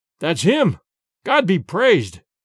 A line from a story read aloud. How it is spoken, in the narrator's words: cried Sedenka, Petar, and their sister-in-law all at once